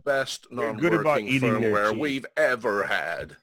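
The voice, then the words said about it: Poor impression of another person's voice. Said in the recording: “my Tim Cook impression. That wasn't very good. That was a bit closer to Shaggy than I wanted.”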